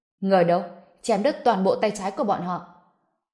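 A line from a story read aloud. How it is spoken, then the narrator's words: Cold, furious. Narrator (Vietnamese): Phụng Vạn, trong mắt lóe lên vẻ lạnh lùng, phẫn nộ nói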